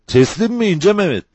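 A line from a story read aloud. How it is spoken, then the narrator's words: Shouted. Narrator (Turkish): diye bağırdı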